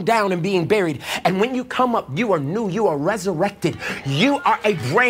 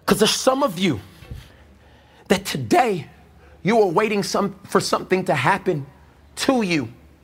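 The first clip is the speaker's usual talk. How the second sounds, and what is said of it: Emotional, choked-up voice. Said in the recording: “I'm getting emotional.”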